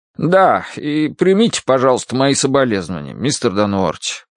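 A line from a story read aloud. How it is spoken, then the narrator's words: Embarrassed mumbling. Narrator (Russian): пробормотал он смущенно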